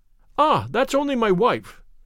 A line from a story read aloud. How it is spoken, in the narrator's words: cried the commissionaire